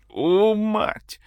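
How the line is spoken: Howling nearby. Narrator (Russian): взвыл кто-то рядом

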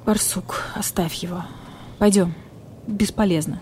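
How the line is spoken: Quiet voice. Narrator (Russian): тихо произнес барсукот

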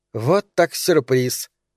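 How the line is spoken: Offended declaration. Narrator (Russian): обиженно заявила Регина, узнав об остром приступе мигрени у Сары

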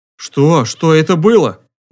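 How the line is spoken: Trembling question. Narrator (Russian): дрожащим голосом спросил Глеб

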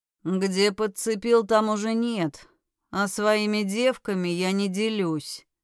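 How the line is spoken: Rude reply. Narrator (Russian): грубо ответил ему Скайлор

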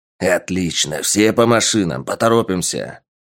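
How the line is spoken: Commander barking. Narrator (Russian): гаркнул командир отряда

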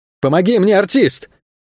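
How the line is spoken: Strained shout. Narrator (Russian): крикнул он, не в силах подтянуться

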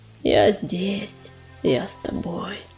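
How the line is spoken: Whisper. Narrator (Russian): шептал Бурый

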